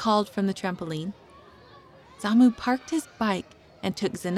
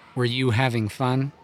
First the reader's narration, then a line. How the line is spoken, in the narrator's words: Dad asked